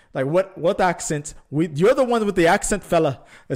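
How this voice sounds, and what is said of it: Put-on Scottish accent, sounds Indian. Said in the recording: “my Scottish impersonation... By way of India... I thought I was doing a perfect Scottish accent”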